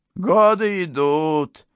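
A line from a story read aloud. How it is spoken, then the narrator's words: Gloomy. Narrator (Russian): мрачно заключила она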